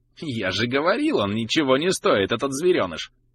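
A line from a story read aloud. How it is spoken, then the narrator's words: Mocking voice. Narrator (Russian): раздался глумливый голос Дегера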